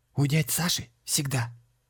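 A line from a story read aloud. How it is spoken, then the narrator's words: Loud whisper. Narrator (Russian): громким шепотом ответил ангел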